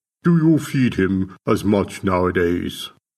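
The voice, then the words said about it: Posh villain-like accent. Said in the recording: “His translator had a posh accent that made him sound like a bad guy in an old film.”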